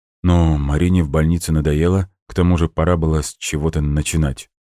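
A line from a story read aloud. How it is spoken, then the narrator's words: Sudden mumble. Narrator (Russian): неожиданно для себя промямлил Макс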